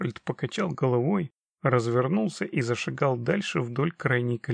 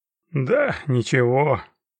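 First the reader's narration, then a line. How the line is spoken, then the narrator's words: Goblin sighing. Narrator (Russian): вздохнул гоблин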